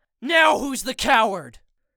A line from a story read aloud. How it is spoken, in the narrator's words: yell